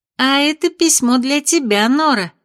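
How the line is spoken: Giggling. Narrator (Russian): хихикнула Эль

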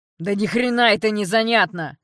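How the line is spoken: Yell. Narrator (Russian): заорал капитан

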